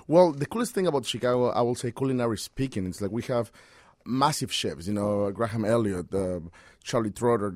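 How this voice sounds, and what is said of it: Speaks with a foreign accent. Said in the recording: “I hope people can understand my accent”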